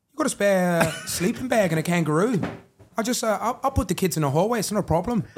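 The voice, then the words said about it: Put-on Australian accent, slightly South African. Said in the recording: “That's an accent. ... I thought he's wanting me to do the accent. ... Good accent, though. No, good accent. ... It's a bit South African-y.”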